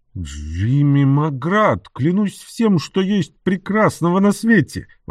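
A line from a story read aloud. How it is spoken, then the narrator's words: Exclaimed. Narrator (Russian): воскликнул Энтони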